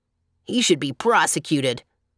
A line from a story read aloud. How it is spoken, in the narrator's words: remarked the clown gloomily